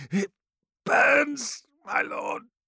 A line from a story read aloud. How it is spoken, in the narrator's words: rasped Eriad, his every breath an agony